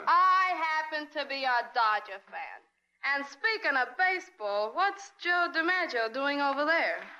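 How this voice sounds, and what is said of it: Strong Brooklyn accent. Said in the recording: “forget that Brooklyn brogue”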